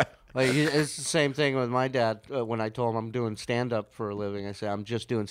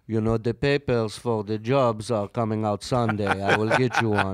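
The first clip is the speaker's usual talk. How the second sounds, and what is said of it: Israeli/Romanian accent, Count-like. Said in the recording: “what accent is that? ... Israeli. Romanian accent. He's like the count.”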